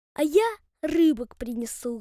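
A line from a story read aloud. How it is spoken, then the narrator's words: Sweet singsong fox. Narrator (Russian): ласково пропела лисица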